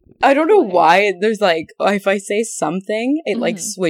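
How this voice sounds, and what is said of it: Usual voice. Nothing is said of it.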